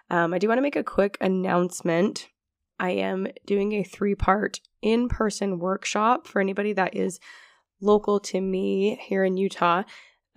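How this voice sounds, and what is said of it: Voice a bit lower than usual. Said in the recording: “I am on the tail end of a cold, and so my voice sounds a little bit lower than usual”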